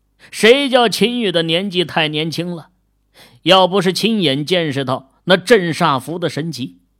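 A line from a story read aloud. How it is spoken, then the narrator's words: Wry, defensive. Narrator (Chinese): 李卫军苦笑着辩解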